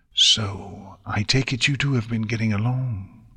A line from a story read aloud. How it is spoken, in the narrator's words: Twilight commented in a hushed voice